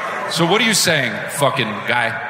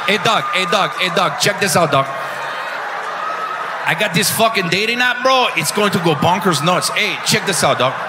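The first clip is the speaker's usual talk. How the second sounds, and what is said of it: Put-on Mexican accent. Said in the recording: “He had an accent, yeah. ... It was a Mexican one, right?”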